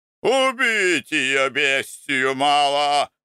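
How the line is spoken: Furious yelling. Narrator (Russian): орал Спирка, с налитыми кровью глазами

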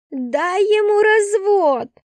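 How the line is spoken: Shouting. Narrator (Russian): закричала Кристина

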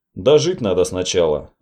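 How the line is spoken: Plain. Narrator (Russian): ответил я

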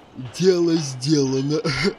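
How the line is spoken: Laughing. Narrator (Russian): Засмеялся Проныра

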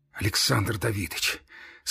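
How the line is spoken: Trembling voice. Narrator (Russian): сказал он дрожащим голосом

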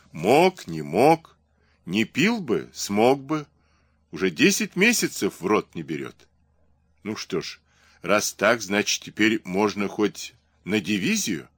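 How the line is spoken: Softening laugh. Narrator (Russian): Серпилин рассмеялся, смягчив смехом суть сказанного

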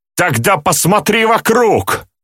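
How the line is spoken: Yelling. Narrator (Russian): Заорал в ответ псих

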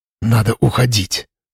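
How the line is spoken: Whisper. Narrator (Russian): прошептал он

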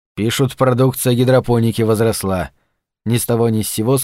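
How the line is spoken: Plain. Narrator (Russian): сказал

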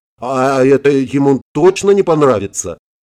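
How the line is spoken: Dazed, confused, smiling question. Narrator (Russian): Томми ошалело, растерянно улыбнувшись, спросил

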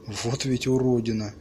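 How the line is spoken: Whispering. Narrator (Russian): прошептала Барбур

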